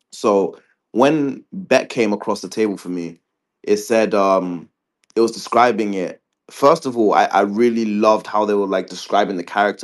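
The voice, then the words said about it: British accent. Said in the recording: “I still have this British accent. I was raised there”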